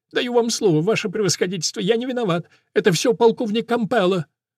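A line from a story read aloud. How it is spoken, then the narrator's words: Childlike sobbing, drunken-sounding. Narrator (Russian): Он рыдает, как маленький, и сержанту кажется, что солдатик пьян в дымину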